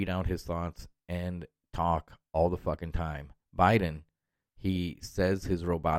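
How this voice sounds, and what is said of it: Usual voice. Nothing is said of it.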